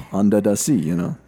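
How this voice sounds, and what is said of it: Put-on Jamaican accent. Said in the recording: “you got to do it with a Jamaican accent”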